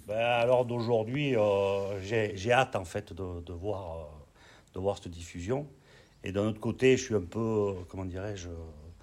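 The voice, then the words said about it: Sing-song regional French accent. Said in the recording (French): “son accent chantant”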